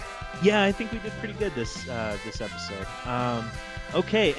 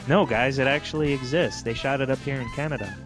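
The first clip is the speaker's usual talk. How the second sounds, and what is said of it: Imitates another person's voice, not convincingly. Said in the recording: “That was my Jack impression. It doesn't sound much like him.”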